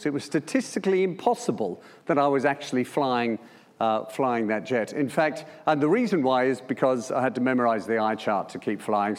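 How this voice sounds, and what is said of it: Australian accent. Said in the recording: “As you can tell by my accent, that was in Melbourne.”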